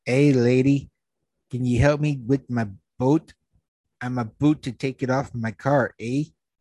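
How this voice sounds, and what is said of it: Light Canadian-style accent imitation. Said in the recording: “speaking with a light accent, perhaps Canadian or British”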